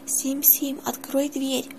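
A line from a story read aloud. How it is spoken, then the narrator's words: Whispered. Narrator (Russian): шепотом произнес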